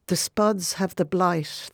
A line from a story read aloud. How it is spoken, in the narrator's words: they cried